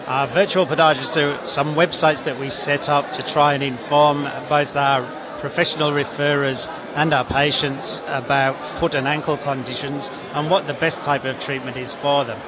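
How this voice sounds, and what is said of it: Australian accent. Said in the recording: “he does hail from the UK originally, but he's got an Australian accent now, which is really quite endearing”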